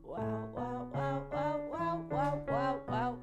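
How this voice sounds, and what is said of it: Gentle crackly vocal fry. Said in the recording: “a very gentle vocal fry exercise... you want to get that a little bit of that crackle. You don't want to force it. It's got to feel very gentle.”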